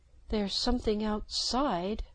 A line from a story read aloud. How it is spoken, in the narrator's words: said in a small voice